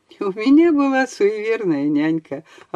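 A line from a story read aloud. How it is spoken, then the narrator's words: Embarrassed young man, laughing. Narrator (Russian): отозвался молодой человек краснее и смущенно рассмеялся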